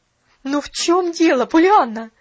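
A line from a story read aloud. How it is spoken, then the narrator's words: Desperate exclamation. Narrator (Russian): в отчаянии воскликнула миссис Керри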